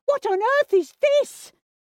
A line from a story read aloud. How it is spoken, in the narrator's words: his mother screech